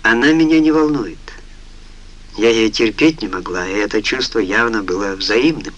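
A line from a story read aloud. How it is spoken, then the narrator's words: Tired. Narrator (Russian): устало ответила Сара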